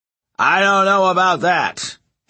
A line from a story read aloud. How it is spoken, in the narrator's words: Hedge barked